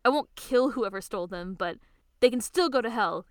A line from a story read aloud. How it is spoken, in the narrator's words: he shouts